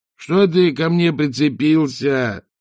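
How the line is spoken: Groaning. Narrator (Russian): простонал он

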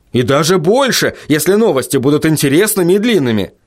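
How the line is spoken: Ardent exclamation. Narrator (Russian): с жаром воскликнул Вильям

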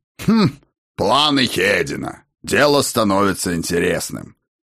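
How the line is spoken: Amused grunt. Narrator (Russian): хмыкнул Ракот

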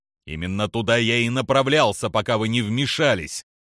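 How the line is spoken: Growled. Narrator (Russian): прорычал Скайуокер

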